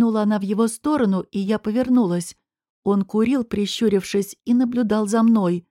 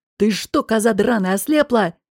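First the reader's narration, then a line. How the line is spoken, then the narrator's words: Angry bark. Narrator (Russian): рявкнул на меня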